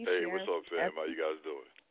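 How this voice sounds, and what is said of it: Deep radio-announcer voice. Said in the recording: “He's got his radio voice on ... Got your radio voice on, huh? ... Real deep with it,”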